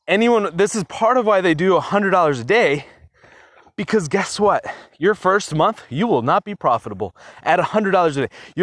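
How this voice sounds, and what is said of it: Out of breath, breathless speech. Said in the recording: “I'm out of breath. I'm walking way too fast today.”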